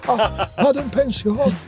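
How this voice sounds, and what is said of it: Fantozzi character voice. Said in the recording (Italian): “Il bambino con la voce di Fantozzi.”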